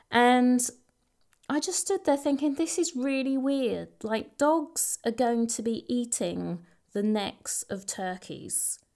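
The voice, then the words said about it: Essex English accent. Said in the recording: “In my classic Essex accent.”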